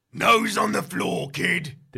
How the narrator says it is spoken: he snarls

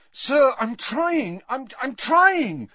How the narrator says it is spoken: said Harry desperately

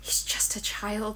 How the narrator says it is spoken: she whispered, her voice nearly cracking at the thought

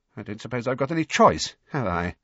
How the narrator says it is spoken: said Rita, her voice shaking slightly

